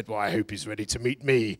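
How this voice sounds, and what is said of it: Winston Churchill impression. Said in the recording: “That's about the best Churchill impression you'll get.”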